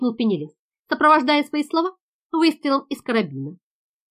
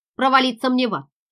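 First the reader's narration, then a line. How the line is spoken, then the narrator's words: Grumbling voice. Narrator (Russian): проворчал один голос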